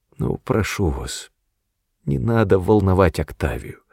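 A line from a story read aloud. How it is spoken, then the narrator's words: Pleading undertone. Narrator (Russian): умоляюще добавил вполголоса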